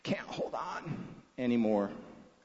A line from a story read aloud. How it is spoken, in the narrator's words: Mac groaned